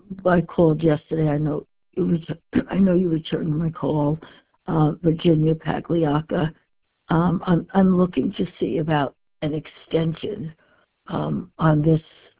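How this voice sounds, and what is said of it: Voice affected by a cold. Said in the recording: “Pardon my voice. I come down with a bad cold.”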